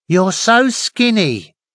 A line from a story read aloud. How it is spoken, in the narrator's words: Gran exclaimed